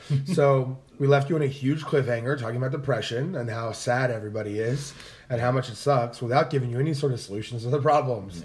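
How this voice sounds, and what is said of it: Raspy, hoarse voice. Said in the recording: “Pardon my raspy voice. I lost my voice this weekend having entirely too much fun.”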